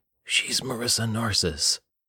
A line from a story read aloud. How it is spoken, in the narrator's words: whispered